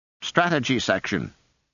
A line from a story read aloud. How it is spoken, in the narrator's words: she snapped